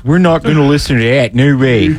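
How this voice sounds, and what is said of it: Put-on Maryland Dundalk accent. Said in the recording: “is that your Maryland accent? Like Dundalk? ... it's kind of a little Pittsburgh in there ... that's too Pittsburgh-y.”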